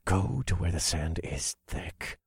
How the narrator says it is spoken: I muttered under my breath

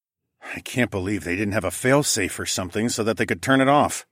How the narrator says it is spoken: I grumbled

